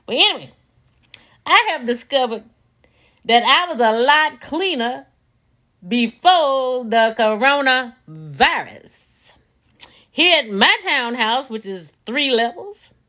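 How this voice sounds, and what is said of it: Southern US accent. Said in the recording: “if you detect the Southern accent, I am certainly from Gatesville, Mississippi”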